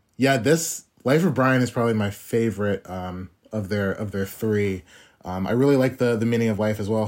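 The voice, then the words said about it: American accent. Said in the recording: “your accent, which is very different from my accent, but, like, you're an American, very different”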